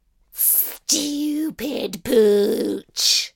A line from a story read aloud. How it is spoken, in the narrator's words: I snarled through the bars of my cage